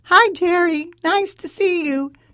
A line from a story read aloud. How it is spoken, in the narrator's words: he said in a falsetto voice